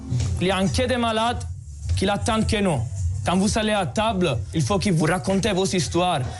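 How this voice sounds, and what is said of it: Italian accent speaking French. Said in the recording (French): “Avec son petit accent qu'il ne cherche pas à masquer, ... surjoue le Made in Italy”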